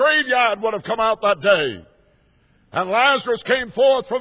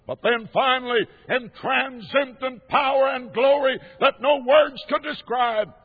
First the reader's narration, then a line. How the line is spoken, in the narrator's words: he cried out with that voice of his